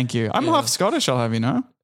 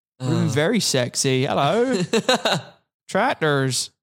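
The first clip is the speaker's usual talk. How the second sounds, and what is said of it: Put-on West Country English accent. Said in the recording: “if I had stayed in Dorset and Devon, I would have kept this accent”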